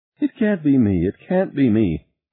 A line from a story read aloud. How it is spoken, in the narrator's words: Harry moaned